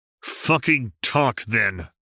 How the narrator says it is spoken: he said through clenched teeth

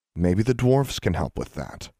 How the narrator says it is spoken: Alexandra said

